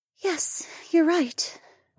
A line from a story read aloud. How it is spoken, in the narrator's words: Rachel sighed as she rubbed her eyes